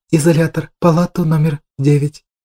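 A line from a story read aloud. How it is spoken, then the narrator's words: Quiet command. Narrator (Russian): Тихо приказала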